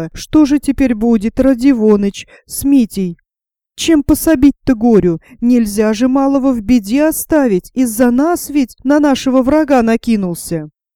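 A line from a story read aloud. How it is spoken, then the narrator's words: Frightened whisper. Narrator (Russian): Настасья Филипповна, испуганно, шептала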